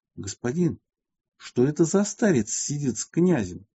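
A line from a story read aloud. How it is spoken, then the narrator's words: Quiet question. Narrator (Russian): тихо спросил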